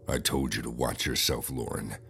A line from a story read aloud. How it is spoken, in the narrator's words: a guy said in a menacing voice